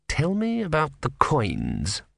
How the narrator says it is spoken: murmured Vorbis

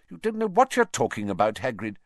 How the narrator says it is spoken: said sharply

